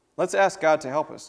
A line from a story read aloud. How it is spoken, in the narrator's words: Daddy said